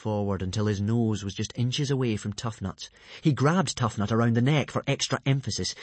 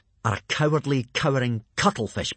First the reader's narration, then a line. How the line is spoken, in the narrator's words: he spat out with savage contempt